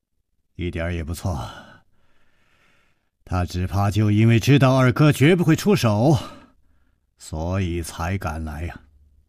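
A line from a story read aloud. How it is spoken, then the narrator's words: Sighing. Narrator (Chinese): 楚留香叹道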